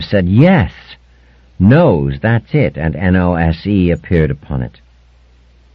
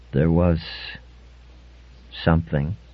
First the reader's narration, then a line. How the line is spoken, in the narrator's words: said Brock hesitantly